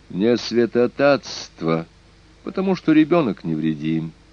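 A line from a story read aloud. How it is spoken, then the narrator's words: Cold. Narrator (Russian): холодно возразила Дико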